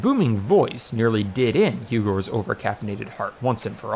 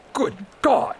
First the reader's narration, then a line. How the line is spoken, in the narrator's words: he wheezed